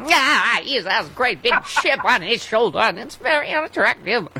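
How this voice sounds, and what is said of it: Imitates another person's voice. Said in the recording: “I do my Katharine Hepburn ... That's a good Kate.”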